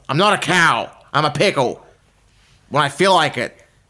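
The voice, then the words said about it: Cartoon character voice impression. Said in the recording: “Great Pickle Rick impersonation”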